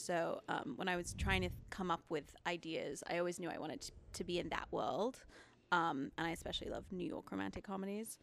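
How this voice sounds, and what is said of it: Mixed English and American accent. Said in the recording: “I also have a weird accent because I'm originally from England. ... So I have like a really confusing accent”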